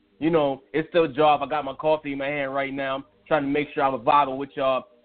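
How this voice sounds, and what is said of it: Hoarse, rough voice. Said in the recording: “I know I don't sound like myself. I'm a little hoarse. ... I don't got the pipes. I usually have the pipes.”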